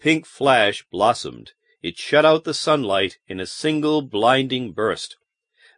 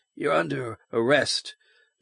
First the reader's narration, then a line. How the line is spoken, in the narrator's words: Baines muttered grimly